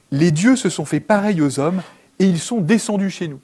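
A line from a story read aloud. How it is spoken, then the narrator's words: Crowd crying out, foreign tongue. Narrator (French): les foules s'écrièrent en lycaonien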